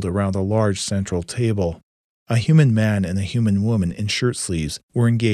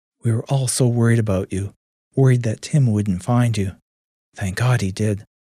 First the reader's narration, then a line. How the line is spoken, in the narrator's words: her mother said in a calming voice